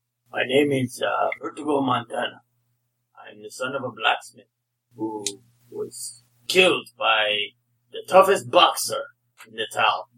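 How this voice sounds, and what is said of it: Put-on accent. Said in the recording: “That is why I talk with these accents.”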